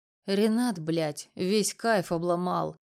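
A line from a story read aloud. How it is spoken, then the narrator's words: Grumbling mutter. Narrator (Russian): пробурчал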